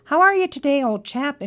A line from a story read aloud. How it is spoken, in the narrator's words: inquired the rat cheerfully